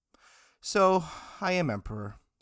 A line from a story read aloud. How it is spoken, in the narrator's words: he sighed, sounding a little bored